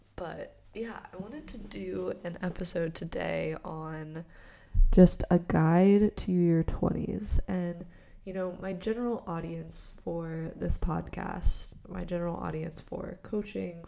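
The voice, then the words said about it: Congested voice from a cold. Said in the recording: “I have a little bit of a cold, so this is not exactly how my voice sounds.”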